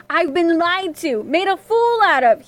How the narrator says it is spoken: yelled

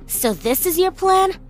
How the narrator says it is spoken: I snapped at my sister

